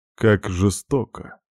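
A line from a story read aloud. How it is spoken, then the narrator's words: Snorting. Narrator (Russian): хмыкнул Томми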